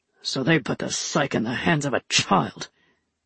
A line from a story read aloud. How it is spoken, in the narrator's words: Jun muttered